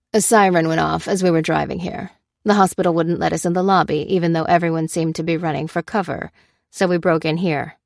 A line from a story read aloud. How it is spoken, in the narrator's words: said Karis